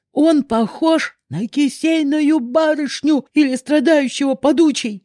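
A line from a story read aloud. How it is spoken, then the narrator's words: Warrior shouting. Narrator (Russian): выкрикнул один из воинов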